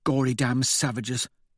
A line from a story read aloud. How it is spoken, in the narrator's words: Victor mutters